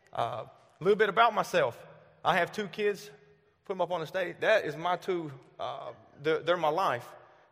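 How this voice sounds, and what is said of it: Southern US accent. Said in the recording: “I am born and raised in the South. This isn't a fake accent. This is what you get 24/7.”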